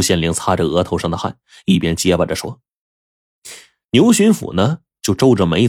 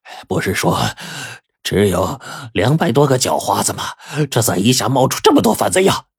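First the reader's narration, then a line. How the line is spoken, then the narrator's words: Shaken, panting question. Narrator (Chinese): 惊魂未定啊，牛巡抚就喘着粗气问朱县令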